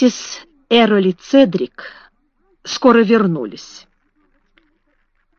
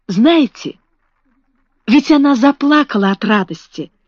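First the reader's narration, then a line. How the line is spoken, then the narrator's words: Exclamation. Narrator (Russian): воскликнул он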